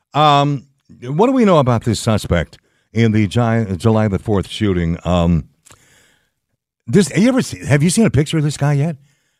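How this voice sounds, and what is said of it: Slightly creaky voice. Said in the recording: “my voice is a little creaky today. I think it's allergies”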